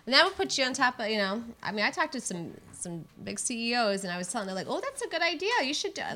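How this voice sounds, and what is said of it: Strong Michigan accent. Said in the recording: “Are all your CEOs from Canada? ... Or Minnesota. ... It's a Michigan accent. ... sometimes it just comes out when I least expect it”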